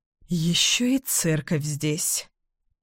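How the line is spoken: Muttering. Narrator (Russian): пробормотала я

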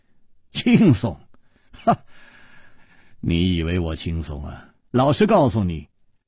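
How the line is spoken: Wry, bitter smile. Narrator (Chinese): 楚留香苦笑着说

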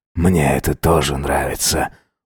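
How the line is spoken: Breathy exhale. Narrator (Russian): выдохнул Джеймс

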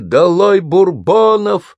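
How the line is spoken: Loud crowd chanting. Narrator (Russian): Призыв подхватили, и все стали громко скандировать

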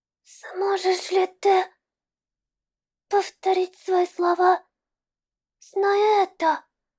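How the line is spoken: Trembling question. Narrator (Russian): Дрожащим голосом спросила Шви

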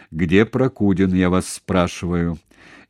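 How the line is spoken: Loud and stern. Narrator (Russian): повторил громко и строго

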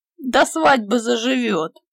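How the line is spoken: Booming laughter. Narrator (Russian): громогласно захохотал Петька

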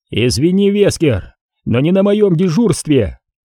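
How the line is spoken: Shouting. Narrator (Russian): выкрикнул Редфилд

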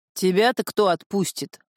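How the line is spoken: Growled. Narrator (Russian): рыкнул Фатху

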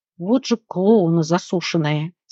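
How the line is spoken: Quiet groan. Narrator (Russian): тихо простонал Алекс

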